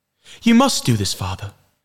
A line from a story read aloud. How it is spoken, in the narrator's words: Jemmy pleaded